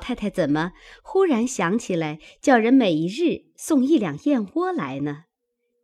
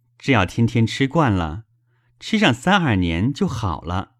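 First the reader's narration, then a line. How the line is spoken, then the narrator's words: Smiling. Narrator (Chinese): 宝玉笑道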